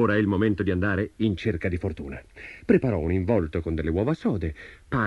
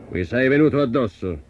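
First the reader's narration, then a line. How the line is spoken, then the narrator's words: Giant thundering. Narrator (Italian): tuonò il gigante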